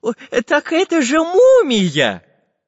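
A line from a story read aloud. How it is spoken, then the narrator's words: Joyful exclamation. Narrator (Russian): радостно воскликнул Семен Семенович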